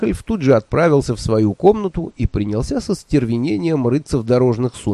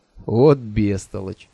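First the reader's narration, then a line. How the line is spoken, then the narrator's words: Almost tender. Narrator (Russian): почти нежно сказал он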